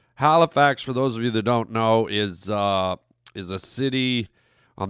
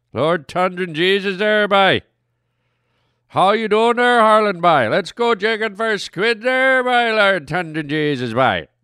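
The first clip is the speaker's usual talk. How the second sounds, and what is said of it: Exaggerated Eastern Canadian accent. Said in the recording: “a nice Eastern Canadian accent there, by. Now, not all of them. I'm doing the extreme one, but they got a great accent. It reminds me of the Pikeys from that movie, Snatch.”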